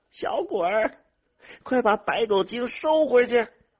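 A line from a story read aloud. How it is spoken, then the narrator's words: Shouting. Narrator (Chinese): 刘玉生的嘴里头喊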